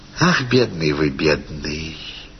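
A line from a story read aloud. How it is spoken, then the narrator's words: Simple, gentle. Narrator (Russian): сказала она просто и ласково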